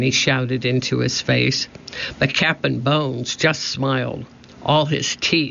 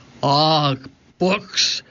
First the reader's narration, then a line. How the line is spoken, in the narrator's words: growled Cap'n Bones